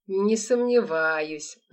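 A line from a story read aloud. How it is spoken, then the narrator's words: Mocking, through gritted teeth. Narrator (Russian): насмешливо процедил черный человек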